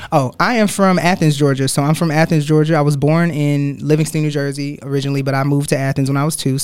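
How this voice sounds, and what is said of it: Southern US country accent. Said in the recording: “I got a country accent now”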